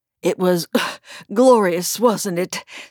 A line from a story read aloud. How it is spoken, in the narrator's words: said the White Knight panting